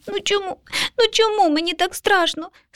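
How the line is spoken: Small child sobbing. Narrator (Ukrainian): схлипнув малюк

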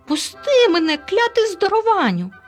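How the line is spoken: Shrieking. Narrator (Ukrainian): заверещав Елуа

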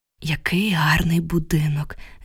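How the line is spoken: Sighing. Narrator (Ukrainian): зітхнула я

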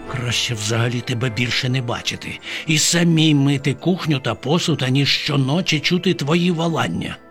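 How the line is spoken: Muttered. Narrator (Ukrainian): пробурмотіла Бабаківна

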